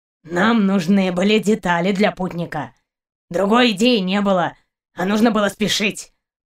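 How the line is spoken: Grumbling. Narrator (Russian): проворчал Каранец

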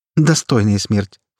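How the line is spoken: Snorting. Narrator (Russian): фыркнула Стамеска

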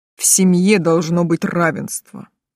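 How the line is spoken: Angry clipped words. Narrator (Russian): зло отчеканил Тейт

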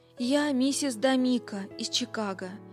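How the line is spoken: Trembling voice. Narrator (Russian): ответила она дрожащим голосом

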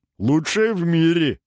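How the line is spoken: Giggling. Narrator (Russian): хихикнул астролог

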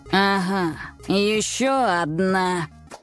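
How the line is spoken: Stern growl. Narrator (Russian): сурово прорычал

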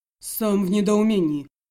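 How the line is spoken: Muffled dull voice. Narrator (Russian): глухо озвучил свое мнение Добровольский

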